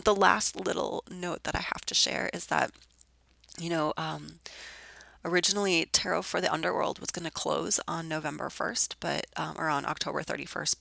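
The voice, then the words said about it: Sick, hoarse voice. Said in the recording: “in my sexy sick voice”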